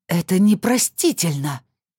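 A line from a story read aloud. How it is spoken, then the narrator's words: Hissing through teeth. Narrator (Russian): сквозь зубы прошипела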